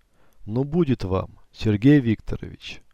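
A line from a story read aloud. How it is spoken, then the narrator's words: Calm. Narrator (Russian): спокойно произнес он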